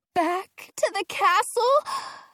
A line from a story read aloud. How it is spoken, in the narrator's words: Penny groans